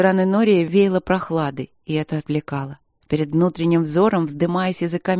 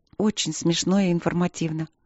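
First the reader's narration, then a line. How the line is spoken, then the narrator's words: Helpless mutter. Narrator (Russian): пробормотала она, чувствуя себя слепой и неумелой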